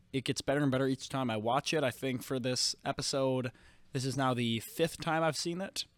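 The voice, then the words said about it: Rough, sick-sounding voice. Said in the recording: “my voice is kind of shitty right now and that's just because I got kind of sick... horrendous audio on my part”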